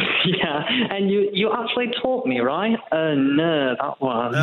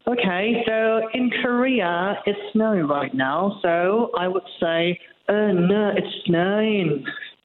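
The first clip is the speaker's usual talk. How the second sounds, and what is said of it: Put-on Hull accent. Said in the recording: “to really master the Hullovian accent ... can we hear a bit of the Hull accent?”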